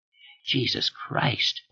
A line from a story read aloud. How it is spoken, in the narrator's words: Raleigh said hoarsely